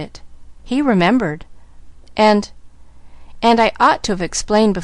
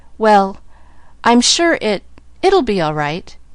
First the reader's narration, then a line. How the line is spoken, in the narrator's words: Nancy managed to stammer